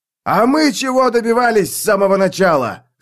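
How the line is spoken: Shout. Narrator (Russian): закричал Мураш

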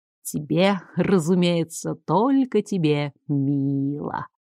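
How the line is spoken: Drawling. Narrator (Russian): протянул пожиратель

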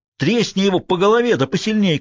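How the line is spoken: Shouted. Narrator (Russian): крикнул Фалькон шоферу

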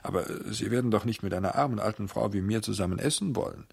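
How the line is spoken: Stammer. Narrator (German): stammelte

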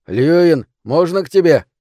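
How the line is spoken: Shout. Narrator (Russian): крикнул

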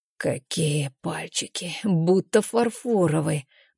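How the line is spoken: Mumbling. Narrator (Russian): бормочет Бестыжев

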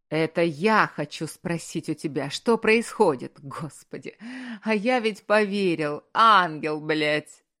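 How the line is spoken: Bitter, strained laugh. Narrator (Russian): Рассмеялся он с каким-то надрывом и горечью

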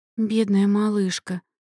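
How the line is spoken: Grieving sigh. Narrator (Russian): сокрушённо вздохнула одна из них

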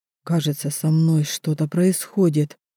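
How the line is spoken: Barely audible. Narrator (Russian): еле слышно отвечает Велин

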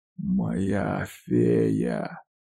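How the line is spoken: Hoarse whisper. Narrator (Russian): Шепчу сипло

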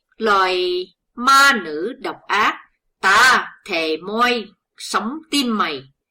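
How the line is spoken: Furious roar. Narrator (Vietnamese): hắn không sao dằn được cơn giận dữ, nên gầm lên

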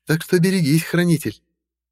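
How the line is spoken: Short laugh. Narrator (Russian): коротко рассмеялась Изольда

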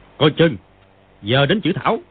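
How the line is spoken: Shouted warning. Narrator (Vietnamese): Chu Tử Liễu thấy đối phương nhận biết lộ thư pháp này, bèn quát lên

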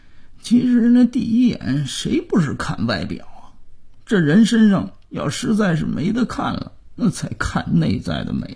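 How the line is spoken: Quiet grudging mutter. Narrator (Chinese): 姥爷还是不服气的小声嘀咕

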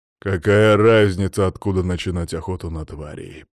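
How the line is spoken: Deep bass. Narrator (Russian): пробасил он

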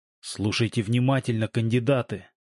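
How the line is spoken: Whisper. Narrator (Russian): прошептал Володя

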